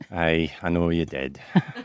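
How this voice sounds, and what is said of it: Put-on Scottish accent. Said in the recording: “speak in the Scottish accent”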